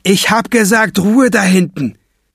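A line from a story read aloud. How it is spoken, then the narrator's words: Robber shouting. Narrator (German): schreit der Bankräuber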